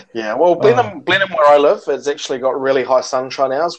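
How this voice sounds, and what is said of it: Clean-sounding accent. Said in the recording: “You have a nice accent, by the way. ... nice and clean.”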